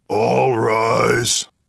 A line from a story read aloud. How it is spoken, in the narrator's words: grunted the alien serving as the bailiff